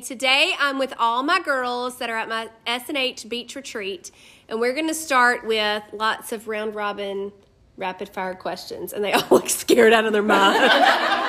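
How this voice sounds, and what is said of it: Speaks with a regional accent. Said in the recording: “because of your accent ... same accent”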